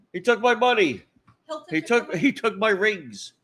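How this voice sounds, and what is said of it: Confused old man voice. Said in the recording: “I'm doing an impression. ... I'm pretending to be an old guy with dementia.”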